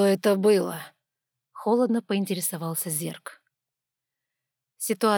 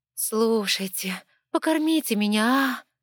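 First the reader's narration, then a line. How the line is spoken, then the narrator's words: Pleading drawl. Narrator (Russian): просительно протянула рыжая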